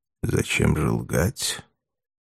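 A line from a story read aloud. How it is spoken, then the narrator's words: Quiet. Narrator (Russian): спросил тихо Пилат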